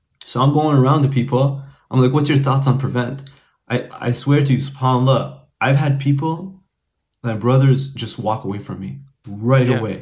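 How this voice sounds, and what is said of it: Non-local accent. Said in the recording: “you can tell from my accent, I'm not from here”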